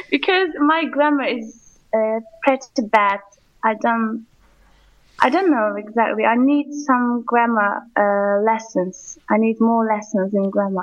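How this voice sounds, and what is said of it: English-sounding accent. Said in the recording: “quite an English-sounding accent”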